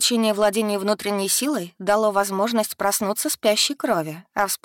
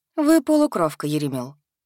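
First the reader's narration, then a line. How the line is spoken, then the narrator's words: Calm explanation. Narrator (Russian): спокойно объяснила преподаватель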